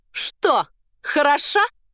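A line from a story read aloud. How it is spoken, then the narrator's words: Loud hoarse shout. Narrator (Russian): громко крикнула охрипшим голосом Маргарита Николаевна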